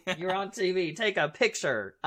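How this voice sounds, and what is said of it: Put-on American Southern accent. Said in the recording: “Everybody in the States has a fucking Southern accent.”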